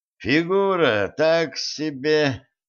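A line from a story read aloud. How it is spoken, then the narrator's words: Sighing. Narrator (Russian): вздохнул он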